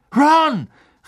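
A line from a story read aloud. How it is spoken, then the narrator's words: Calling out. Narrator (German): rief Harry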